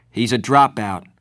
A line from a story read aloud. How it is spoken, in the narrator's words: I said roughly